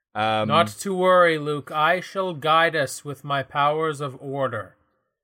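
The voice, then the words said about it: Serious gothic character voice. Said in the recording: “this like gothic character that you've taken on for this one ... This is my serious voice.”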